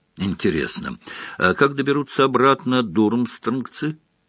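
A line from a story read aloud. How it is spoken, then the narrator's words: Plain. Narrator (Russian): спросил Рон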